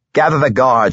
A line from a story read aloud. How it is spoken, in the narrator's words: started to yell